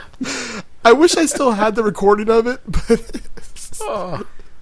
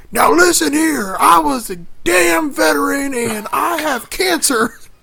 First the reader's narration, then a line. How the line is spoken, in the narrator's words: my grandpa starts yelling